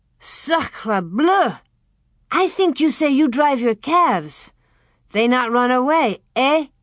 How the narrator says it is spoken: Pierre sputtered and said

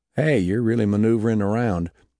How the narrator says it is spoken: He said in a calm Texas drawl

